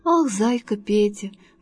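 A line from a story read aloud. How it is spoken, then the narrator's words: Sighing bee. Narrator (Russian): вздохнула пчелка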